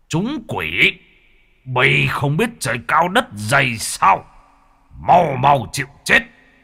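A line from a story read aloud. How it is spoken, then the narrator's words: Angry. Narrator (Vietnamese): Môn thần tức giận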